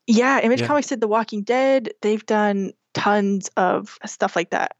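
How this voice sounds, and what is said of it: American accent with Scottish influence. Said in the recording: “You don't necessarily sound like someone I would associate from Bennett, Colorado. ... Yes, it has changed my accent. I've got a wonky accent now. I can thank my Scottish boyfriend for that. ... I have lost my Bennett accent, but I have gained a weird one.”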